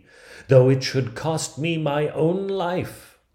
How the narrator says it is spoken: cried she

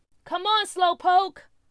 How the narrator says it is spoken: Nathaniel yelled behind him

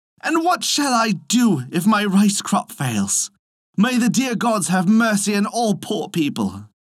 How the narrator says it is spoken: cried the poor peasant man

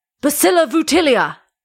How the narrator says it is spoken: shouted one lone voice from the back of the crowd

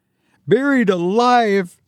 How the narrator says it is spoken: he shouted with a peal of hysterical laughter

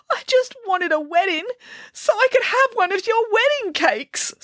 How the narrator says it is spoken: sobbed the princess

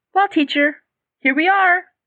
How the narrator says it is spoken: said brightly

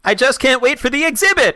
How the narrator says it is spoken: shrieked Carlton

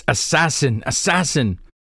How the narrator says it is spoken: Royon, pale-faced and stammering, shouts

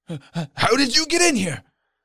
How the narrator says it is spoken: sputtering out a hoarse

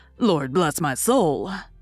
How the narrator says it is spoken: exclaiming

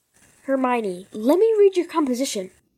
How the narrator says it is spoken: said Ron desperately

